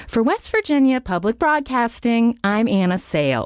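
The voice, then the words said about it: Animated sing-songy radio voice, Nina Totenberg-like. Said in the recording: “trying to impersonate like Nina Totenberg ... She's very animated ... it would be very sing-songy, my delivery ... Anna Sale impression”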